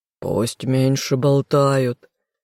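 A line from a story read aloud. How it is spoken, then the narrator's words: Hoarse mutter. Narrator (Russian): хрипло пробормотал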